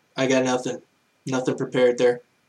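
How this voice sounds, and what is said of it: Imitates another person's voice. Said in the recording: “my best Ronnie impression.”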